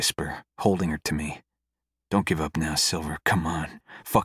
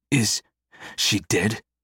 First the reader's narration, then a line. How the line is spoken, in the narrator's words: Jacob pants